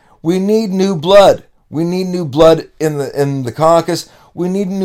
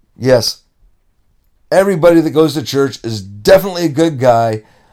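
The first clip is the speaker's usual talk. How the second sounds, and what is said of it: Heavily sarcastic tone. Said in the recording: “That was sarcasm. It was meant to be dripping”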